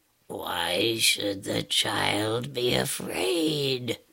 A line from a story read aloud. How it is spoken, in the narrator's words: asked the bear, speaking in a low, soft tone that reminded her of the purring of a kitten